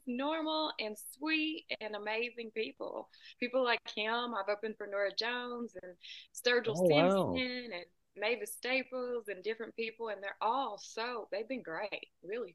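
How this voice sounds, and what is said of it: Southern US accent. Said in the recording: “that accent sounds like Nashville ... A little more south than that, about 2 hours south of Nashville ... Sometimes when people hear my accent, they say Texas”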